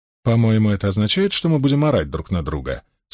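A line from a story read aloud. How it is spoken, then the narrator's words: Dry remark. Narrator (Russian): сухо заметила Суан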